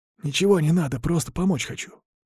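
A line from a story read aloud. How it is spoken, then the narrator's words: Quick whisper. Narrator (Russian): быстро прошептал Пыля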